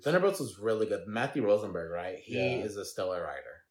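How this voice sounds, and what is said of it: Speaks with a slight country accent. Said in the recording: “my little country accent”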